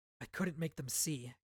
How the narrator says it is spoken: Kaladin whispered

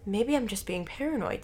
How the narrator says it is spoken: said Brian

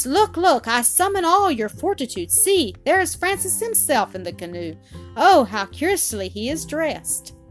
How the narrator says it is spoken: cried they at once

